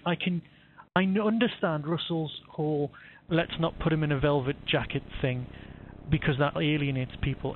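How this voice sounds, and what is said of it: Northern English accent, not posh. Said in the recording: “as you can hear from my voice, I'm not a bit posh. I'm from the north”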